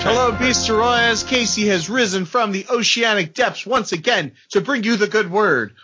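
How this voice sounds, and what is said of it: Imitates another person's voice. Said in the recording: “my best Lady K impression”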